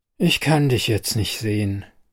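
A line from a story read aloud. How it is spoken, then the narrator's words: Tired. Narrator (German): sage ich müde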